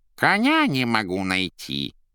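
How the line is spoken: Muffled, false voice, cat. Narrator (Russian): Задушенным и фальшивым голосом отозвался из-под кровати кот

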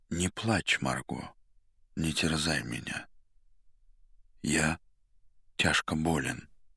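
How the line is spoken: Muffled, hollow voice. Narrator (Russian): глухо сказал

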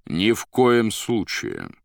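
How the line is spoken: Plain. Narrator (Russian): ответил Воланд

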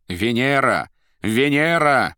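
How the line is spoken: Triumphant shout. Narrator (Russian): победно прокричала Наташа

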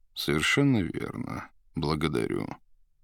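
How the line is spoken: Slow heavy bass. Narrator (Russian): медленно говорил маг тяжелым басом

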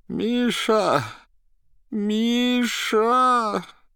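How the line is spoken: Moaning call for help. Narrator (Russian): Пытался позвать на помощь Берлиоза, дважды простонал

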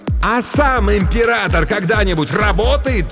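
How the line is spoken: Triumphant yell. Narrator (Russian): торжествующе заорал Крокет

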